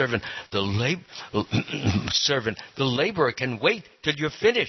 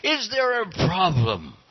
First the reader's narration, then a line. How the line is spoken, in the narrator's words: the king called out to the guard